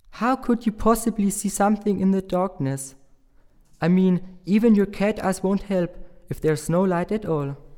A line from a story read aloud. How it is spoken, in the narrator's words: said Ross